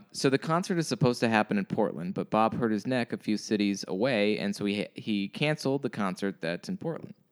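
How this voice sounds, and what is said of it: Imitates another person's voice. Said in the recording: “this is so in Liz's voice ... I can hear her voice ... This is exactly how Liz talks ... I'm trying to do my best Liz impression.”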